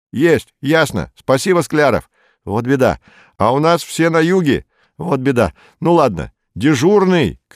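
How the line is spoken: Shout. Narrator (Russian): крикнул Роберт

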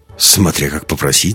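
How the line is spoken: Snort. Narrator (Russian): хмыкнул Андерс

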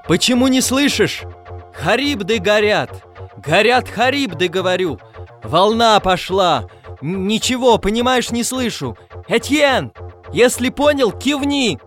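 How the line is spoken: Impatient shouting. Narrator (Russian): Пагава нетерпеливо кричал

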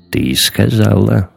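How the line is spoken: Sighed. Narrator (Russian): вздохнул Кэтил

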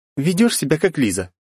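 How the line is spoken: Girl's scoffing snort. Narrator (Russian): фыркнула девушка

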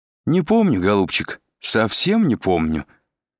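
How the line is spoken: Cheerful elderly woman replying. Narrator (Russian): весело откликнулась престарелая Матильда

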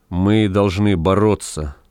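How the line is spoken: Even, level voice. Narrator (Russian): ровным голосом произнес Вепрь

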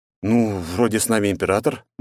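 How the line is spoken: Hesitant, tactful hint. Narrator (Russian): неуверенно, чтобы не обидеть его, намекнул

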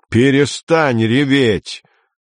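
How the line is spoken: Angry yell. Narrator (Russian): заорал он на Амалию

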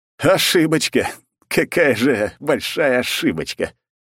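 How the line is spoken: Loud laughter. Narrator (Russian): расхохотался я

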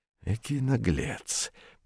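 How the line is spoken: Through gritted teeth. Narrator (Russian): процедил сквозь зубы Атос

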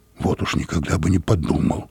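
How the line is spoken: Muttering. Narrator (Russian): пробормотал я

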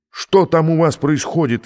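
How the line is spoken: Yelling. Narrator (Russian): вопит Вандерхузе

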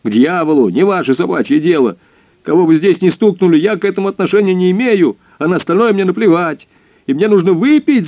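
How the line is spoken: Sudden yell. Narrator (Russian): заорал он вдруг

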